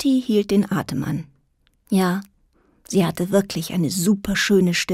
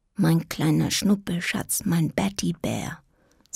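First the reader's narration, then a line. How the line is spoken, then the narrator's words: Quiet, to herself. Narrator (German): sagte leise zu sich selbst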